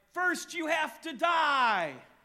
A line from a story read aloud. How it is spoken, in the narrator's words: And they all cried